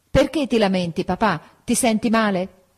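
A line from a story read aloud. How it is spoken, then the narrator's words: Shout. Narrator (Italian): gridai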